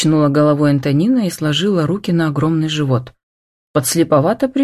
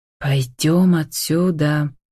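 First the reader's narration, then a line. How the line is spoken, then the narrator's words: Hissing. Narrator (Russian): прошипел Агафонов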